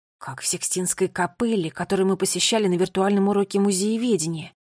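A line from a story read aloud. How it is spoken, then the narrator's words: Whispered. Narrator (Russian): прошептал Финн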